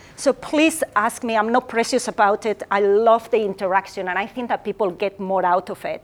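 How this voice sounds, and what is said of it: Strong accent. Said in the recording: “I have a strong accent,”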